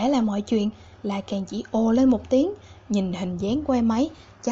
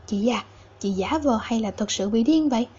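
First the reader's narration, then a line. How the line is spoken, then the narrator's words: Quietly asked. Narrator (Vietnamese): La Càn nhỏ giọng hỏi thăm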